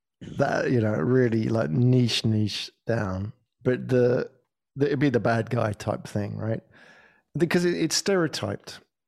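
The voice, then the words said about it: British accent. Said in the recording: “I've got a British accent”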